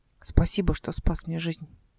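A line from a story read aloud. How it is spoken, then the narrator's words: Quiet and soft. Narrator (Russian): тихо и мягко сказала она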